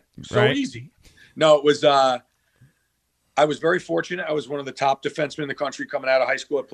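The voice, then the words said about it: New York accent. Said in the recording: “It's New York's team, man. ... Listen to my accent.”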